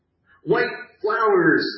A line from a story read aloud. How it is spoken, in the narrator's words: screamed the happy clown